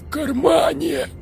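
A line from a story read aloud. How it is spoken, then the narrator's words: Whisper, young man. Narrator (Russian): прошептал парень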